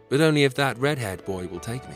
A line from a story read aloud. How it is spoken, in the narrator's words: she said loudly